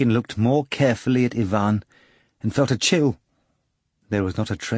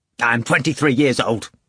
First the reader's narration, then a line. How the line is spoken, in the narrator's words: Ivan said impatiently